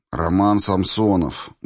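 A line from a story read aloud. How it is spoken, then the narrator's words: Gruff grunt. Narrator (Russian): буркнул чувак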